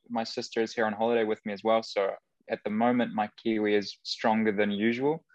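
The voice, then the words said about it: Slight New Zealand twang. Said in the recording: “You do have the twang.”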